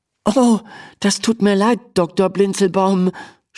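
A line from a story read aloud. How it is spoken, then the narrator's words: Stammering. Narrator (German): stammelt Emma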